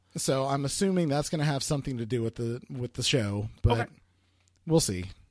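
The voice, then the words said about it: Strained, sick-sounding voice. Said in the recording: “My voice sounds fucking crazy at the moment because I've been a little bit sick.”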